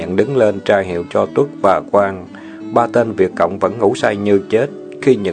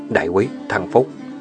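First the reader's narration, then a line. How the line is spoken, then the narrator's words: Soft call. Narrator (Vietnamese): Chuẩn gọi nhỏ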